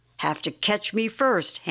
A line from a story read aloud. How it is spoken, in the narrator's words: Ham cried